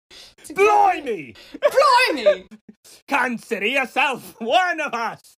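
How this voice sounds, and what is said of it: Put-on British accent. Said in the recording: “oh, I have to practice my accents!”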